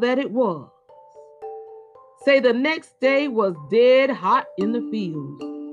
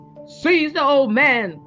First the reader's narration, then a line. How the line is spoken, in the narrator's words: cried the overseer